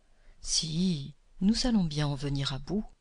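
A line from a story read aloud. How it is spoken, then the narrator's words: Plain, witch. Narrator (French): dit la sorcière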